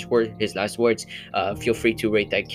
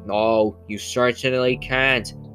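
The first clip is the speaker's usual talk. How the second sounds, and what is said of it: Imitates another person's voice. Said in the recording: “that Kennedy impression.”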